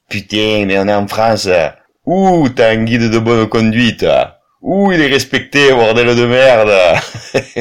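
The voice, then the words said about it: Southern French accent. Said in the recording (French): “toujours cet accent du Sud”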